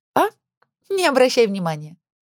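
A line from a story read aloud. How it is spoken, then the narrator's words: Giggling. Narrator (Russian): хихикая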